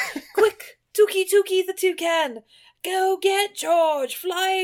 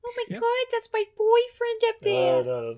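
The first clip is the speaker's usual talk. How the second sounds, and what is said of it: Harley Quinn style character accent. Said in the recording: “Don't do that accent. That's you leave Harley Quinn out of this.”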